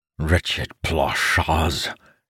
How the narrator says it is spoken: growled, and the noise bounced off the barrier

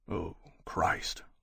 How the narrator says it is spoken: Lawrence said under his breath

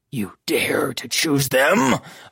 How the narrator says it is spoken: Auguste hissed

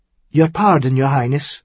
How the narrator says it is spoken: he said, just a bit nervously

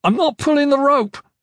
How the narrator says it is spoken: he shouted

